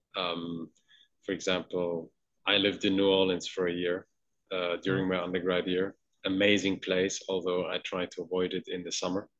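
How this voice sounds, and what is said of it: Mixed New York, London, Southern accent. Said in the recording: “my accent in English is probably a mix between, you know, uh, New York, London, um, the, the, the South in the U.S.”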